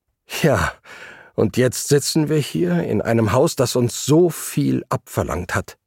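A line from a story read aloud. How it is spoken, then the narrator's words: Groan. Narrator (German): stöhnte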